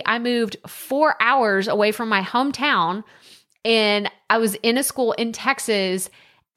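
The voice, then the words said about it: Texas Southern accent. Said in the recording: “I got made fun of because of my accent... she's just the country girl... this girl's definitely from Texas. Her accent is a lot thicker at times.”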